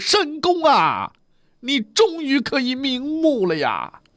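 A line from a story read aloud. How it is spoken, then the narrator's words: Wailing. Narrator (Chinese): 严霸他是一路嚎哭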